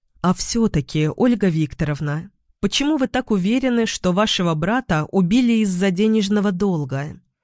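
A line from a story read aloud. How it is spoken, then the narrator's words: Plain. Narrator (Russian): спросила я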